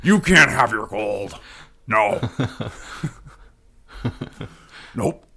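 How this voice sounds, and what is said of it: Imitates another person's voice. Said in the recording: “I gotta work on my Nixon impression.”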